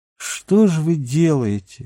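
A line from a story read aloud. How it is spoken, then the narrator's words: Glum. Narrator (Russian): уныло сказал начальник отряда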